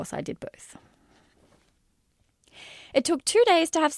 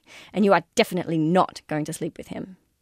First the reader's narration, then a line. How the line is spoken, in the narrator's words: I told myself sternly